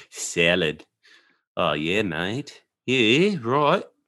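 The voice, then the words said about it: Poor put-on Australian accent. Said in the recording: “talk Australian? ... speak Australian? ... I'm doing it really bad right now. Sorry, butchering butchering the accent.”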